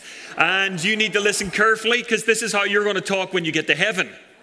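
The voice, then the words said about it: Irish accent. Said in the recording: “this is an Irish accent”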